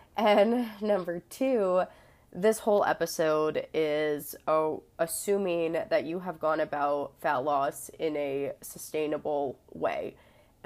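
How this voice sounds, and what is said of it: Congested, stuffed-up voice. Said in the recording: “apologize for my voice. I have a cold ... I'm a little stuffed up”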